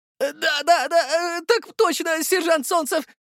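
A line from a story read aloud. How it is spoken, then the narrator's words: Young man's squeak. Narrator (Russian): пропищал паренек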